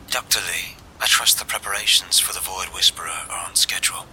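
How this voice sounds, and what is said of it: Refined, clipped British accent. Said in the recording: “The woman's tone is refined with a clipped British accent”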